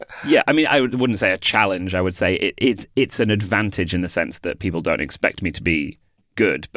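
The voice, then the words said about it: British accent. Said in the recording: “you're a guy from the UK ... you have a British accent”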